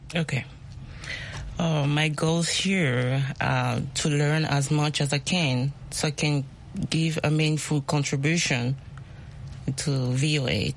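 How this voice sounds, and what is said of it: Speaks English with an accent. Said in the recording (French): “My accent. ... It's okay. We love accents.”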